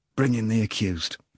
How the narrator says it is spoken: he said quietly

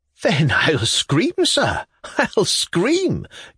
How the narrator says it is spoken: giggled Pavel Pavlovich, as merrily as ever, just as though the whole thing was a joke

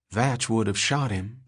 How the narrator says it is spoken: said, breathed to herself

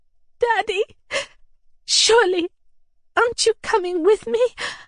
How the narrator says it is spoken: I asked in a breaking voice

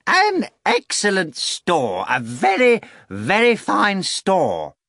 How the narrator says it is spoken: Korovyov announced in a ringing voice heard in every corner

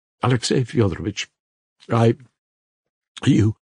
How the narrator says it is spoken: muttered the captain, faltering, looking at him with a strange, wild, fixed stare, and an air of desperate resolution

